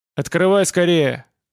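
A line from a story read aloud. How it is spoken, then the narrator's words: Impatient shout. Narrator (Russian): крикнул Владимир с нетерпением в голосе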